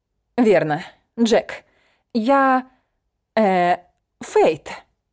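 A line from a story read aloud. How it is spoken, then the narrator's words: Stammering embarrassed mumble. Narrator (Russian): Заикаясь, пробормотала я, заливаясь румянцем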